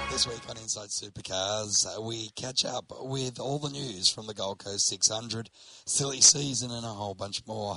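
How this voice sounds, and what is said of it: Deep, rough, unwell-sounding voice. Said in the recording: “I'm, not travelling the best, as you can tell by my voice. ... That's okay, Barry White”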